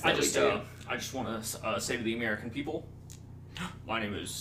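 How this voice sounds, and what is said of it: Impression of Jimmy Carter. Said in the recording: “Is this Jimmy Carter again?”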